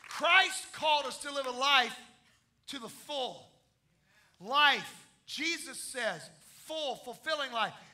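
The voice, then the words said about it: Loud shouting preaching. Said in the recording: “I'm in a loud environment. I'm shouting too loud”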